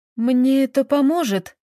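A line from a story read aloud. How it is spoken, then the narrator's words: Trembling voice. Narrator (Russian): спросила она Феофанию все еще дрожащим голосом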